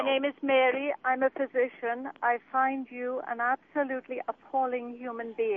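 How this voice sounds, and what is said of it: British accent. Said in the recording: “what's with the accent? ... The accent is British.”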